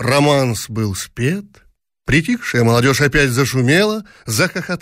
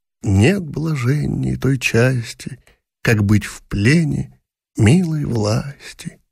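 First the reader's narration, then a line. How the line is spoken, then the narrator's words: Involuntary whisper along with singer. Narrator (Russian): Она шептала невольно вслед за певцом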